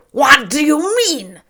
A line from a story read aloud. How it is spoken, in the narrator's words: cried out